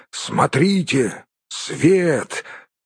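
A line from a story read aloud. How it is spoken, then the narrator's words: Exclaiming. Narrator (Russian): Балин воскликнул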